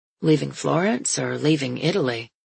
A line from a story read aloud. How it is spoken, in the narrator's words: His voice is soft and surprised